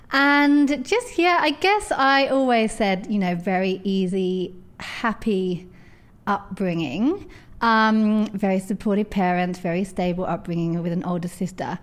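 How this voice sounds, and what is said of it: London English accent. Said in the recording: “I grew up in on the edge of London, as you can tell from my accent.”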